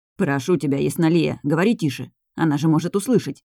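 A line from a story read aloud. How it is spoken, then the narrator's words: Plain. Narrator (Russian): ответил мужчина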